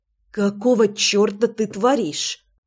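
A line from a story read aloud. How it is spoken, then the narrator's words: Hissed. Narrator (Russian): прошипела я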